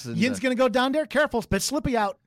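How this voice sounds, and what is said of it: Put-on Pittsburgh accent. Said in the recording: “I loved the Pittsburgh accent ... it's such a unique accent ... very regional ... with the U's and the D's”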